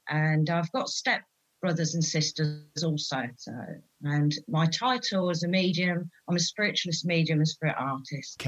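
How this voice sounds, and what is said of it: English East Anglian regional accent. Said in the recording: “that accent, you are actually born and bred and lived in Peterborough ... she sounds like she's from Essex or something like that ... I'm not from Essex, I'm from Peterborough”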